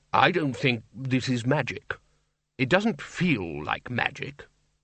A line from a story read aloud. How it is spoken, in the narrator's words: said the lecturer, trying to keep his voice calm and relaxed